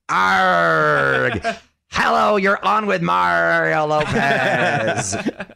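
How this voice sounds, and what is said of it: Pirate voice. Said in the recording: “International Talk Like a Pirate Day”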